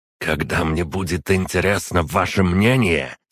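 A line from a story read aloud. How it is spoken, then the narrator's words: Through gritted teeth. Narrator (Russian): сквозь зубы процедил Шпеер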